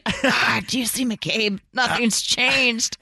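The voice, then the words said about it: Mock whisper. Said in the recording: “That's why they're whispering.”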